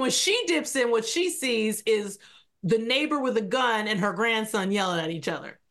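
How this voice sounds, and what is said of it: Usual voice. Nothing is said of it.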